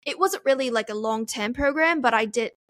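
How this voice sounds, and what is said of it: Put-on British accent drifting Australian. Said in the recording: “I actually take quite pride in my British accent ... now it sounds Australian. That was a little Australian. I switched.”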